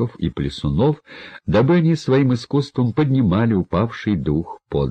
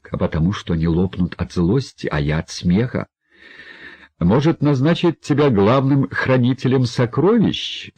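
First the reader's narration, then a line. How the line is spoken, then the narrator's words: Laughing. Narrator (Russian): смеялся герцог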